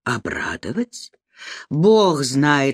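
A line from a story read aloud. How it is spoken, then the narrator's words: Objecting with heavy sigh. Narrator (Russian): возразил он, тяжело вздохнув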